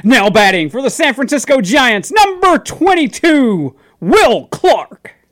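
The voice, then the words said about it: Stadium announcer radio voice. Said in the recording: “I don't have a good radio voice.”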